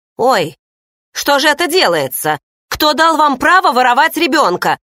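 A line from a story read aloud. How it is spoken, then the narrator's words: Yelling. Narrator (Russian): заорала появившаяся Хли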